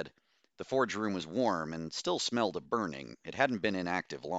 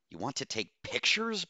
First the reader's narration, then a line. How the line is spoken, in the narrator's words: Bose hissed